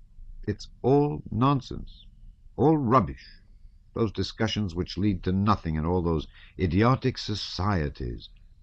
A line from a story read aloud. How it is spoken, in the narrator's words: Natasha declared